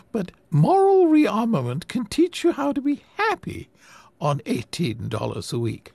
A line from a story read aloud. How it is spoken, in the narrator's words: the old lady smiled sweetly